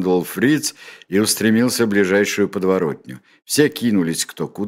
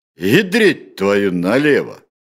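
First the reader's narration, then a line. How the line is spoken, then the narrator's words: Loud. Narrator (Russian): громко произнес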